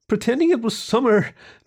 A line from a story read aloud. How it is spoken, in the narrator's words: Jenna said, miserably